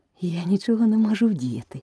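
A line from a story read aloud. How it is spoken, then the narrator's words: Gentle explanation. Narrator (Ukrainian): лагідно пояснила Аліса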